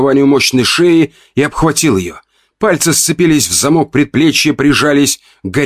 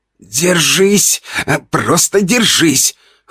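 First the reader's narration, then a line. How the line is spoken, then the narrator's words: Strained hoarse mutter. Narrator (Russian): хрипел я сам себе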